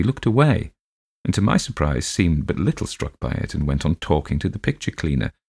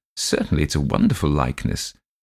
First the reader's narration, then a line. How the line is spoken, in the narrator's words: My father laughed and said